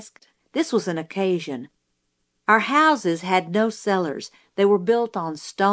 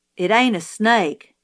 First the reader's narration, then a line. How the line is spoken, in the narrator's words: Jim said